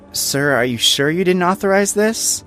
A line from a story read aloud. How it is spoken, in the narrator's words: one asked, her voice dripping with doubt